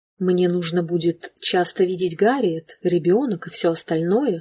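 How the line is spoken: Plain. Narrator (Russian): сказал Шелли

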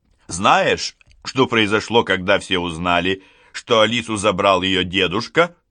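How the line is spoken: Plain. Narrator (Russian): говорит Шарлотта

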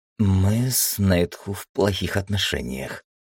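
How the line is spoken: Forced out reluctantly. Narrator (Russian): наконец выдавила Мосвин

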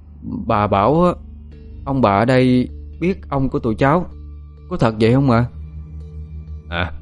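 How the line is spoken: Child's trembling question. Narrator (Vietnamese): Một đứa trong số hai đứa nhỏ chợt cất giọng run run hỏi

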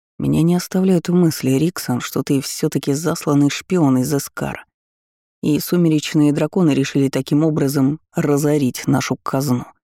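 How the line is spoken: Muttering. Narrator (Russian): пробормотал Конрад

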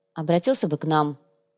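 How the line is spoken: Grumbling. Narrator (Russian): пробурчала Ирина

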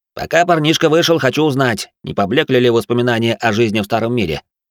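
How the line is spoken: Rapid chatter, professor. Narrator (Russian): затараторил профессор

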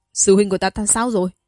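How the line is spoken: Loud question. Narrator (Vietnamese): Nam Sơn lớn tiếng hỏi

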